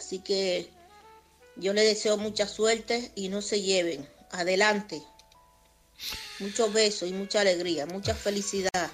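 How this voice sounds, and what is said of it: Lovely regional accent. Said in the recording (Spanish): “ese acento tan precioso que tienes”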